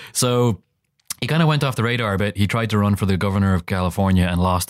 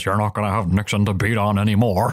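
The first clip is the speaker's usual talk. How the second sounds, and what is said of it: Imitates another person's voice. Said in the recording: “That's a pretty good impression. ... You talk from the top of your mouth and out the side. ... you got to have a loose face. He's got to slack in your jaw a bit.”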